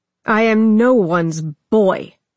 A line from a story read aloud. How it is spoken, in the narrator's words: Arthas spat